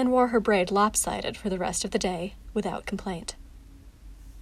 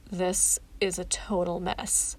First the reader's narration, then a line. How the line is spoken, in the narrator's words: told dryly